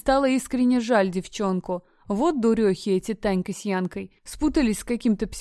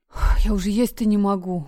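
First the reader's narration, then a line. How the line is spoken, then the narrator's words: Moaning. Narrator (Russian): простонала она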